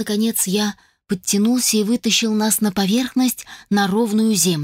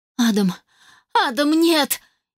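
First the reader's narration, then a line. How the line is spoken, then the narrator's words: Frightened shout. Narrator (Russian): Испуганно прокричала я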